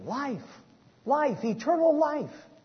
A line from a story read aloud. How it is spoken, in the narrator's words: was shouting